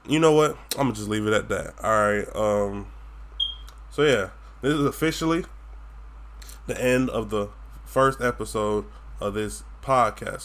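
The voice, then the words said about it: Florida Southern twang. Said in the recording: “I have a twang because I'm from Florida ... my goddamn Florida accent”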